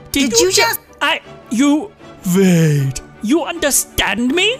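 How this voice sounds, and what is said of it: Talking cat with German accent. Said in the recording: “With a German accent.”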